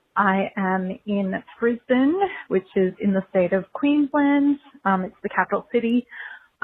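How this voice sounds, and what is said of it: Australian accent. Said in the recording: “if you can't already tell from my accent, I'm Australian.”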